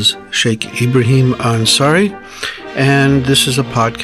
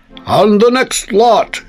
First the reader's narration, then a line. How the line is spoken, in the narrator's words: shouted the auctioneer